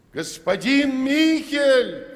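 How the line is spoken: Shouting. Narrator (Russian): крикнул Петр

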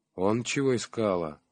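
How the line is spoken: Sighing aunt. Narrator (Russian): вздохнула тетя Христя

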